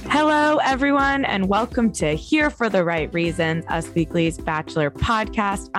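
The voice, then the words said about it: Slightly hoarse, tired voice. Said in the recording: “I'm a little hoarse and I'm a little tired”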